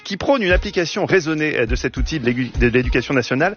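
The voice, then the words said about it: Put-on sing-song Marseille accent. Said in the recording (French): “Je vais prendre l'accent, excusez, parce que vous êtes allé à Marseille, j'ai l'accent en chantant”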